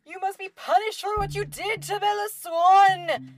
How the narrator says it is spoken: shrieked, and the drool was slopping down his face

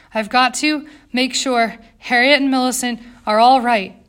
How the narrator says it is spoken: Jane panted behind her

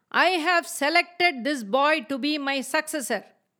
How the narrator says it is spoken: said in a loud, firm voice

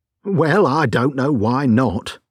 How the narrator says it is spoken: said the inspector

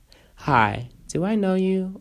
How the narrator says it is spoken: asked

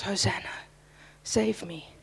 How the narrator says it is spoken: whispering to those waters

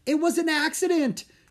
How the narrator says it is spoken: Drake yelled back

